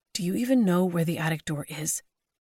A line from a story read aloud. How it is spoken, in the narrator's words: Mackenzie whispered